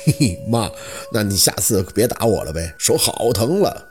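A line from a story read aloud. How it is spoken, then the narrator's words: Cheeky, playful. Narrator (Chinese): 小六嬉皮笑脸的开口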